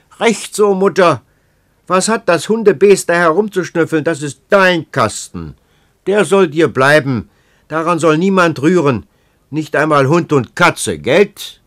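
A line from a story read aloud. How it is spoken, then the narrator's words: Shouting at deaf woman. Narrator (German): Kielblock schrie die Schwerhörige an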